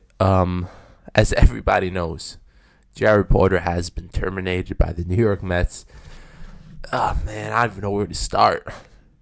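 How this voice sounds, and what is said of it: Voice with a cold, sore throat. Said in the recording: “I have a cold. My throat's hurting me a little bit.”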